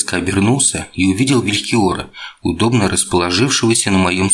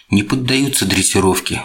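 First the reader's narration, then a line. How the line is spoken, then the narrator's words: Sighing. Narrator (Russian): вздохнул я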